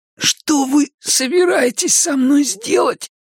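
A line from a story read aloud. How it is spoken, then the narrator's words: Hoarse rasp. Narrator (Russian): прохрипел Макс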